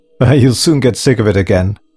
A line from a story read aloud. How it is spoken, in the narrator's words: laughed Peter grimly